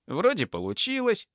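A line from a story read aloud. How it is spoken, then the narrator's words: Exclaiming. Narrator (Russian): воскликнул Карыч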